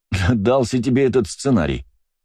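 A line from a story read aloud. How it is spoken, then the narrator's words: Laughing. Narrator (Russian): рассмеялся я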